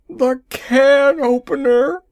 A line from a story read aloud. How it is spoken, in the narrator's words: he shrieked